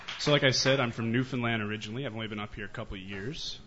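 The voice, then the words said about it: Thick Newfoundland accent. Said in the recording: “you can tell by the real thick accent I have, I guess ... That big, thick accent”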